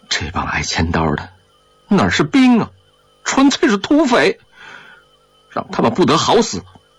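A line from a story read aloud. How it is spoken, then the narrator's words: Furious, teeth gritted. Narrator (Chinese): 张喜儿气得咬牙切齿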